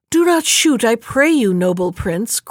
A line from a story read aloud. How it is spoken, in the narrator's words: cried the stork